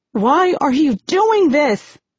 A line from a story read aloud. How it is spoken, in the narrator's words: shout, tears filling my eyes